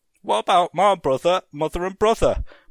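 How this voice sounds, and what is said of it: Cockney orphan boy voice. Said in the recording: “in a human voice, sounding not unlike a Cockney orphan boy”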